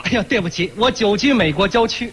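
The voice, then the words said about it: Heavy Northeastern Chinese accent. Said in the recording (Chinese): “是您东北口音挺重的啊”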